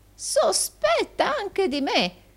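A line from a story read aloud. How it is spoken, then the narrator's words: Old man exclaiming. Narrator (Italian): esclamò il vecchio Arturo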